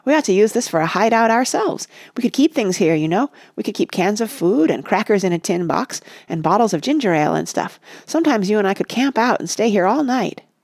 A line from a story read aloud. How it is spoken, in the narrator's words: cried Rush